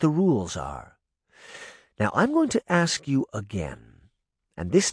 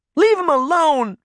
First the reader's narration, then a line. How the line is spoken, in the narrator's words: Daphne shouted